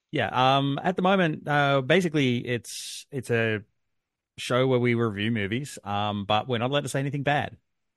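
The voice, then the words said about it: Wisconsin accent. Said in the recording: “I'm from Wisconsin ... you have that accent.”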